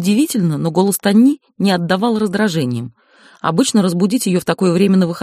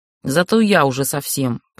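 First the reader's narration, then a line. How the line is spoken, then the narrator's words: Sister grumbling. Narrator (Russian): пробурчала сестра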